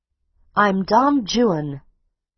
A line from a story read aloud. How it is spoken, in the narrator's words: Amory shouted on impulse, raising his voice above the noise of the rain and the wind